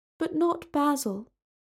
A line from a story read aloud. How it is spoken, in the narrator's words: said Talia sadly